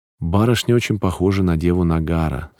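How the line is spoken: Plain, old woman. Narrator (Russian): сказала старушка

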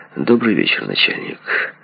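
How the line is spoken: Ingratiating mutter. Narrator (Russian): Почтенный отец семейства заискивающе пробормотал

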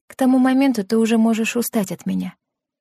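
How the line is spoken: Soft-spoken. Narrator (Russian): мягко произнесла Лена

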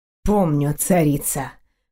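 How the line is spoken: Muffled, hollow. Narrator (Russian): глухо проговорил он

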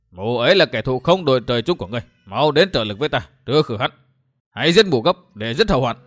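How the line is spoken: Harsh, with a snort. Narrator (Vietnamese): Trầm Nương hừ một tiếng, vừa gay gắt nói

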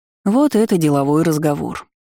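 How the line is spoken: Tired snort. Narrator (Russian): устало фыркнул призрак

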